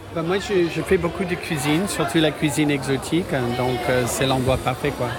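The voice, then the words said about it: Slight American accent speaking French. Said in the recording (French): “Je reconnais un petit accent ... Monsieur américain”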